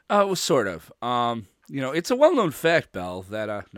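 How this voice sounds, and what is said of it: Cliff Clavin impression. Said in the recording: “I'm doing my Cliff Clavin impression.”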